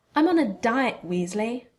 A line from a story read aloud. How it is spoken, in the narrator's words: spat Millicent as she huffed